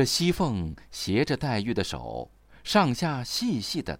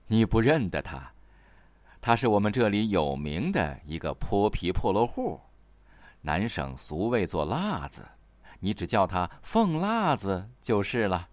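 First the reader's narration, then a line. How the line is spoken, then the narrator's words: Laughing. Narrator (Chinese): 贾母笑道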